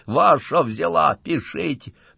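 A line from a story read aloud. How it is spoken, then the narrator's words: Hoarse exposed criminal. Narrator (Russian): разоблаченный преступник хрипло говорит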